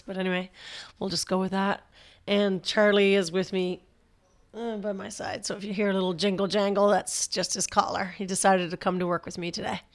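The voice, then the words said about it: Scratchy, hoarse voice. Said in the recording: “I'm battling a bit of a cold, so you're going to hear a little bit of a scratchiness or hoarseness, I guess, in my voice. I like to think of it as a sexy radio voice”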